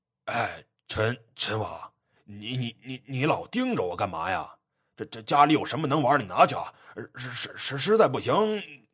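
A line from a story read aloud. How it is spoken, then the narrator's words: Stammering. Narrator (Chinese): 葛茂盛 结结巴巴说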